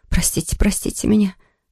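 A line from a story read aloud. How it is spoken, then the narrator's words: Weak murmur after fainting. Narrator (Russian): пришла в сознание и пробормотала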